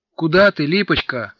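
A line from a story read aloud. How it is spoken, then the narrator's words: Shout. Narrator (Russian): крикнул он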